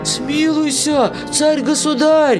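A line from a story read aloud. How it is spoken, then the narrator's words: Wailing cooks pleading. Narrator (Russian): вопили повара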